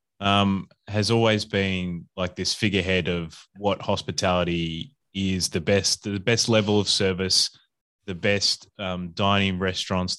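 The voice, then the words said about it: Australian accent. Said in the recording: “obviously you can hear from my accent, I'm from Australia”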